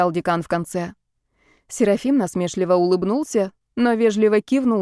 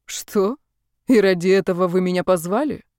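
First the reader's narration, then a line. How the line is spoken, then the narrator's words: Scoffing snort. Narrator (Russian): хмыкнул Серафим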